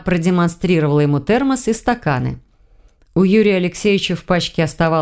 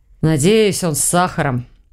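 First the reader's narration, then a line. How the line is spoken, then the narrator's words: Tired reply. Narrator (Russian): устало отозвался Соболев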